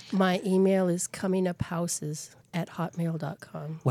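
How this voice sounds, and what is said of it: Sultry, seductive voice. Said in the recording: “sexy voice”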